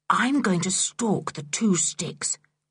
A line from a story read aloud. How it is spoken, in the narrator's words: whispered Julian to the others